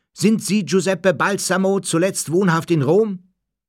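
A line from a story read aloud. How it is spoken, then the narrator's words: Man roaring. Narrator (German): Einer der Männer brüllte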